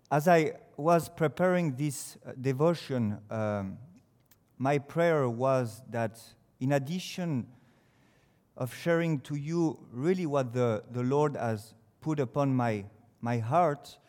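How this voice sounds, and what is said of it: French accent in English. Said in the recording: “despite my accent, my pronunciation ... it's a French who comes to speak to you”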